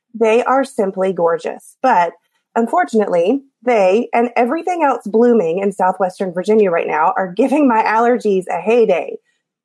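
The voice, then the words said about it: Scratchy, deeper-than-usual voice. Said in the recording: “my voice is scratchy from all the pollen ... I sound a little bit more manly than normal”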